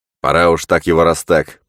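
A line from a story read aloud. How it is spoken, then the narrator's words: Knight grumbling. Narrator (Russian): проворчал рыцарь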